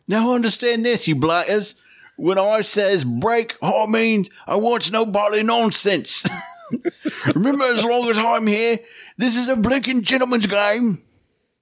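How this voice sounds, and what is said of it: Put-on Cockney accent. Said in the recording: “He's got like a Cockney accent”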